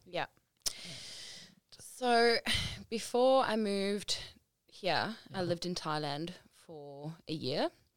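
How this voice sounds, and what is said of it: South African accent. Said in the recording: “as you can tell by her accent, she is from ... South African accent”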